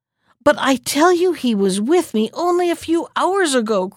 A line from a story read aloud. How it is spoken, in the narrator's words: cried the Sultan angrily